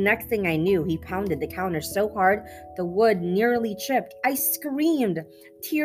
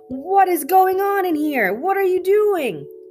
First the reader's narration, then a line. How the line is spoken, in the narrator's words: Hank hollered at the drunk man